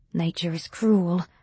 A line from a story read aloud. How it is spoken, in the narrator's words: Dominic murmured